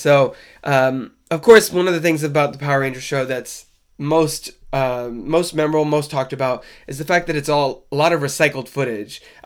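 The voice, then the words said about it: Stuffy, congested voice. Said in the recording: “I sound a little stuffy. I've been fighting a cold this week”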